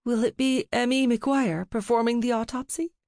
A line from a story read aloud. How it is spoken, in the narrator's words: Ruby asked, her voice thick with crying and grief